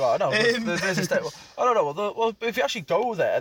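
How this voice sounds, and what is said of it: Usual voice. Nothing is said of it.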